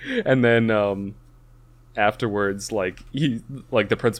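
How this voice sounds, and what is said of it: Usual voice. Nothing is said of it.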